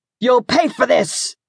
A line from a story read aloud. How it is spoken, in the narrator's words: he snarled